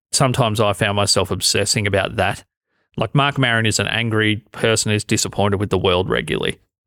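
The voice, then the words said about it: Australian accent, somewhat blended. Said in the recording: “You don't have the worst Australian accent I've ever heard ... my Australian accent, to be honest, it's changed over the last 10 years ... I've got more accent blend in my head”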